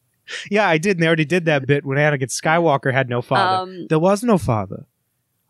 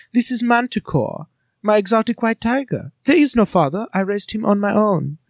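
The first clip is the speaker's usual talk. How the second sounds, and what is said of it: Imitates a character's adorable foreign accent. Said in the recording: “Her accent is adorable. Shmee Skywalker sounds like she belongs in Siegfried and Roy's show.”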